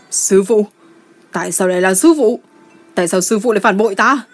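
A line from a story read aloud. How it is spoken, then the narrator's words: Anguished wounded-beast scream. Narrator (Vietnamese): Gia Luật Tòng Phi hét lên như một con dã thú bị thương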